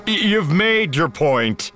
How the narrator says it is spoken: Chewie chuckled

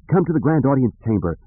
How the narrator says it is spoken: Leia cried to the Jedi trainees

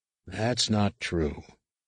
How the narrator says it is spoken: Luke said gently

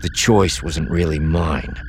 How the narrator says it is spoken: Theron said, his voice betraying more anger than he intended

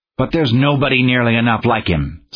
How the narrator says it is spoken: snarled the chief in desperation

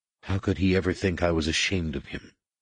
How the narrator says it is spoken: Jason whispered

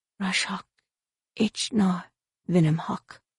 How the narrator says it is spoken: she muttered softly

